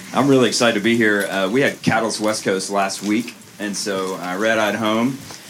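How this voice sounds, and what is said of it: Unwell, rough-sounding voice. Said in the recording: “I am not. You can tell. This sounds amazing, doesn't it? My wife's like, you sound terrible.”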